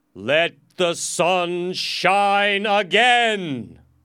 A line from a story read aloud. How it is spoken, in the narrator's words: everyone shouted with joy